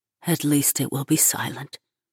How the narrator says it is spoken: Munzer whispers, her lips fluttering

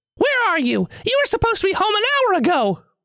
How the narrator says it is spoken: The voice screams on the other end of the line

